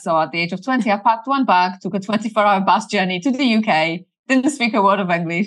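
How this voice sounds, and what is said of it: Polish accent. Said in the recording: “she has a fun accent ... I'm originally from Poland”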